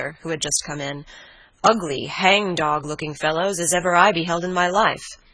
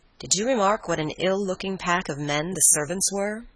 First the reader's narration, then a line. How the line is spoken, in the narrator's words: asked Madame